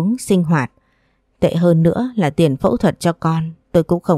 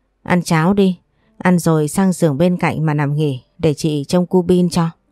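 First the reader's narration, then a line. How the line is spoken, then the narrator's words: Startled, sighing. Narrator (Vietnamese): chị My, chị giật mình thở dài nói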